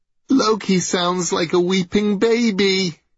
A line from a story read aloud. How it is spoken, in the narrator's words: giggled Baldur's brother Hod